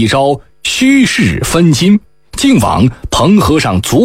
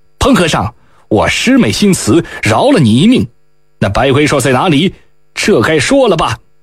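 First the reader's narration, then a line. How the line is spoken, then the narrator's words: Stern harsh voice. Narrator (Chinese): 厉声道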